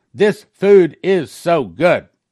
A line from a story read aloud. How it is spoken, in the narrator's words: The grandmother said loudly and exaggeratedly